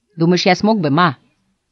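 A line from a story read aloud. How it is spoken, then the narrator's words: Plain. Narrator (Russian): спросил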